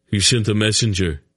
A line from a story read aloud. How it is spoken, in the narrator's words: replied sullenly